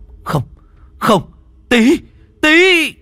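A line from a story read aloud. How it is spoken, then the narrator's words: Anguished crowd screaming. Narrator (Vietnamese): Tất cả mọi người đau đớn, đến cả đám lính và quan huyện cũng hét toáng lên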